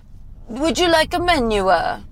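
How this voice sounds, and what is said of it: Sing-song Italian accent imitation. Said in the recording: “the trick of the accent? ... in Italian ... it has a little bit of a sing-song. They literally do have put an A at the end of every word”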